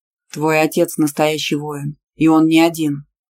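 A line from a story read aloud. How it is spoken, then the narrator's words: Low muffled voice. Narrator (Russian): глухо сказал Иранда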